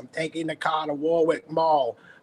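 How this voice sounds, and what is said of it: Strong working-class New England accent. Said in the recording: “that strong working class ... I know that you were from New England”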